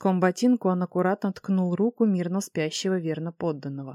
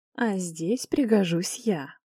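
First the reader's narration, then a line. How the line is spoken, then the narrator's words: Self-important purr. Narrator (Russian): мурлыкнул важно Орион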